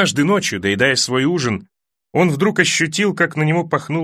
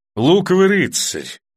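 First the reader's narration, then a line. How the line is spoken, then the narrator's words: Calm. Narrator (Russian): ответила она столь же спокойно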